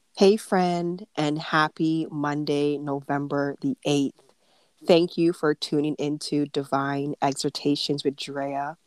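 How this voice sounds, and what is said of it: Slightly altered, congested-sounding voice. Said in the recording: “Not too sure if you can tell from my voice, but I do have a cold. ... So my voice is slightly altered”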